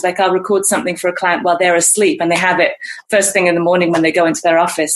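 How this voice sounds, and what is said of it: Neutral mid-Atlantic accent, faintly British. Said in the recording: “my accent has kind of drifted. So I grew up in England and had a British accent, but as you hear it now, it doesn't really sound that British anymore ... a neutral sounding accent. So it's kind of this mid-Atlantic thing where it's not shockingly British, not too English sounding”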